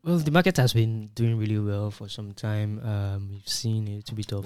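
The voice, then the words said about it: Overly serious, formal panel-style tone. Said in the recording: “saying it seriously as if it's a panel session”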